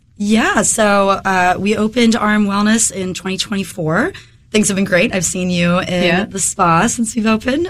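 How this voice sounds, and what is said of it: Slightly hoarse voice. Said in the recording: “I'm getting over a head cold right now ... if my voice is a little hoarse”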